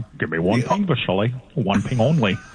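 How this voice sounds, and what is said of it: Sean Connery impression. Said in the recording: “you could do an impression ... Sean Connery.”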